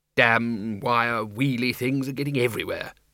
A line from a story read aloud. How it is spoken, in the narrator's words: he muttered